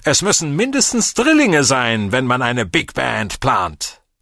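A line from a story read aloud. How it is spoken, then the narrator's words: Shouting after someone. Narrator (German): Der falsche Dankwart brüllte hinter mir her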